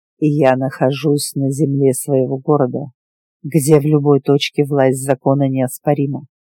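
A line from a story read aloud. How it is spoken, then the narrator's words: Calm statement. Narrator (Russian): спокойно сказал Диего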